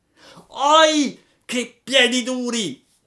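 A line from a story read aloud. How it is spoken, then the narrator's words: Boy yelling in pain. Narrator (Italian): urlò il ragazzo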